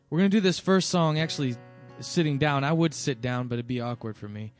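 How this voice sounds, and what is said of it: Strained, worn-out hoarse voice. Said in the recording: “My voice is still a little shot”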